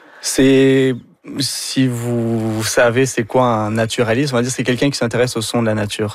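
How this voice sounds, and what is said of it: French accent. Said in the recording (French): “on le devine avec votre accent, vous êtes d'origine française”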